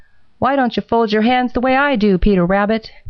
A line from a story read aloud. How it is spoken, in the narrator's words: shouted Happy Jack